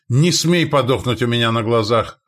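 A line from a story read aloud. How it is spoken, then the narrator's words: Yelling from behind cover. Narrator (Russian): орал Стоян из-за рухнувшей статуи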